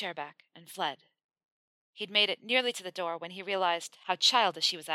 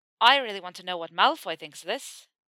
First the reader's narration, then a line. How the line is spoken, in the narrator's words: Seamus said, his voice tipping up at the end just enough to phrase the statement as a question